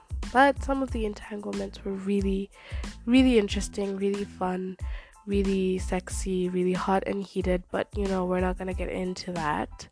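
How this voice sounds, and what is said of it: Raspy, congested voice. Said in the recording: “I have a cold, a horrible cold at that ... it kind of makes my voice sound a little bit more, more like raspy ... It feels like I've just woken up”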